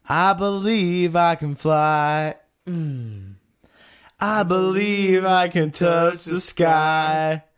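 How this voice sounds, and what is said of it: Singing in falsetto. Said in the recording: “I'm pretty good at my falsetto”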